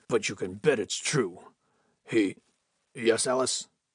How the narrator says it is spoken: grunted Holden

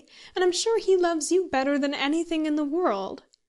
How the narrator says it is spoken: pleaded Mary

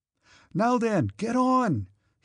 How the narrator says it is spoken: he shouted to the driver

